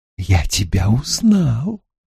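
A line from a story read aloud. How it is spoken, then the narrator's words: Whisper. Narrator (Russian): снова прошептал Стрэндж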